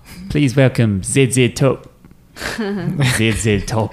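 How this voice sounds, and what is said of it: Put-on New Zealand accent. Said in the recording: “Is that your New Zealand accent? No. Your New Zealand accent?”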